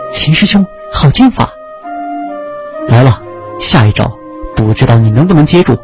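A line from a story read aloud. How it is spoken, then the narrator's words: Loud admiring praise. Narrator (Chinese): 他不由大声赞叹道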